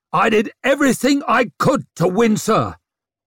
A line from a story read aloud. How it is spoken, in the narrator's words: bellowed General Bell